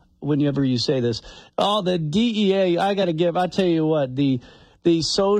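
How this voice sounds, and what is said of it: Usual voice. Nothing is said of it.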